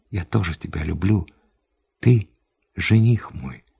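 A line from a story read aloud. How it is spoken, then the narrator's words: Quiet reply. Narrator (Russian): Я ответила тихо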